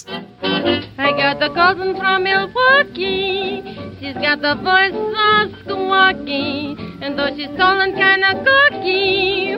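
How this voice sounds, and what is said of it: Charming accented singing, breathy H's. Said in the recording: “a very charming accent ... listen to her accent ... Listen to those sexy H's. Hot, hot.”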